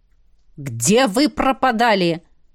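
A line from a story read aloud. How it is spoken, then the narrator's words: Stern question. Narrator (Russian): строго спросил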